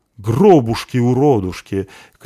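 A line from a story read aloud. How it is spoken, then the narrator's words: Dwarf's shout. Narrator (Russian): крикнул забежавший в таверну бородатый дварф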